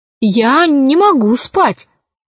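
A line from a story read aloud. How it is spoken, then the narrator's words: Exclaim. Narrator (Russian): воскликнула Алиса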